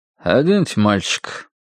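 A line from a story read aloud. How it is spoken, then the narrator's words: Dull voice, man. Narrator (Russian): тусклым голосом велел дядька в белом халате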